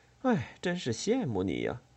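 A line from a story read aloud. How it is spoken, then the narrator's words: Sighing. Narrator (Chinese): 周平叹了口气说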